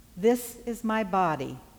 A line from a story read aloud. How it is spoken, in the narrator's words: said